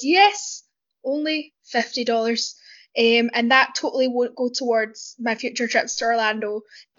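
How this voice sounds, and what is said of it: Scottish accent. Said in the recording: “my accent is from north of the border ... my Scottish slang”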